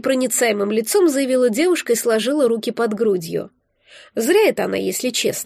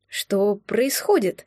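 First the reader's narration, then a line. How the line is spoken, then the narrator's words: Quiet question. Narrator (Russian): тихо уточнила я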